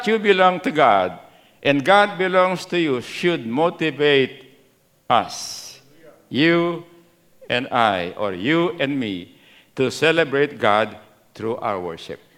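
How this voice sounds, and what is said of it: Filipino Kapampangan accent. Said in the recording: “My Pampango accent's coming out.”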